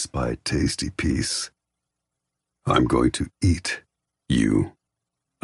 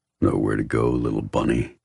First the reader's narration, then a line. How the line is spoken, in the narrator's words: he growls